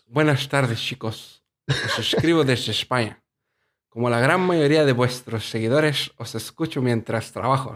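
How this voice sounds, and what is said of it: Put-on Spain Spanish accent. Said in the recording (Spanish): “va a tener que leerlo con acento. Con acento. ... Qué horrible.”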